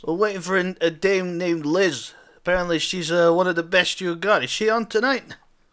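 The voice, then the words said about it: Odd put-on accent. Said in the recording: “I don't know what this accent is, but it's something. ... I like your funny words.”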